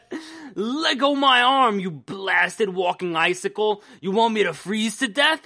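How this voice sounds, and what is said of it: Gruff New York-style character voice. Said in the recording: “rough guy from, like, New York City ... me combined with the Thing doing a Beast impression”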